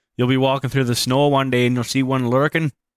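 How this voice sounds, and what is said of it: Put-on Canadian accent. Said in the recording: “Good Canadian accent.”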